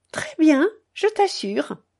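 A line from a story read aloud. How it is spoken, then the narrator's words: Cheerful reply. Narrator (French): Elle répondit gaiement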